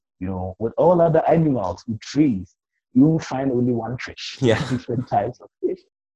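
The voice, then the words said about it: Ghanaian African English accent. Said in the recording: “Mine is an African Ghanaian accent”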